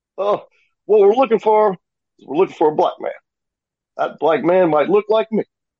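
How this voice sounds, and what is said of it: Imitates another person's voice. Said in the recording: “he does a pretty good Barack Obama as well ... There's my Barack Obama.”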